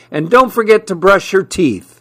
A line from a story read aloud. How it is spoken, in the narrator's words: she yelled back